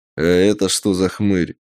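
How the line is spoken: Menacing burly warrior. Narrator (Russian): Грозно спросил один из воинов, рослый и коренастый

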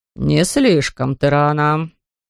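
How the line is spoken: Grumbling. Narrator (Russian): проворчал

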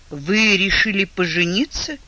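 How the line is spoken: Breathless, strained. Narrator (Russian): выдавила она, едва дыша

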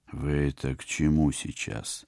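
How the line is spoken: Barely audible, almost mouthed. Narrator (Russian): Так же тихо, едва ли не одними губами, откликнулся я

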